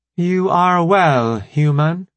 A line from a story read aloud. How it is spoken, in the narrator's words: the unit asked, his voice metallic and just as cold as the winds that whipped around him